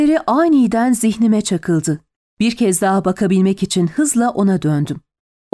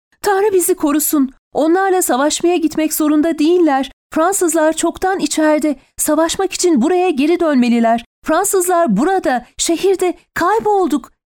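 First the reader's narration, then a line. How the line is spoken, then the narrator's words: Woman shouting. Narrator (Turkish): diye bağırdı Daniel'ın kadını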